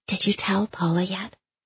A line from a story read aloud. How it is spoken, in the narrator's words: Gabby asks in a clandestine whisper